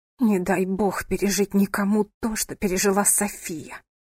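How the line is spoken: Through gritted teeth. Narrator (Russian): произнесла сквозь зубы

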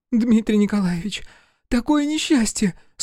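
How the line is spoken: Tearful strained speech. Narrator (Russian): Сквозь слезы с трудом проговорила

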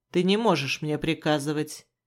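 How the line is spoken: Displeased grumble. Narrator (Russian): недовольно проворчал он

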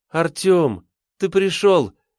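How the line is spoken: Joyful exclamation. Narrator (Russian): радостно воскликнула Ривка

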